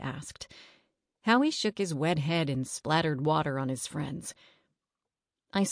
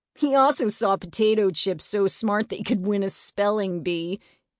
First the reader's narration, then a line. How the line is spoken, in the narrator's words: Eddie laughed